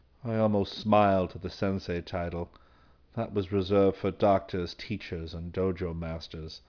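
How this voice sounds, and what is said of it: Usual voice. Nothing is said of it.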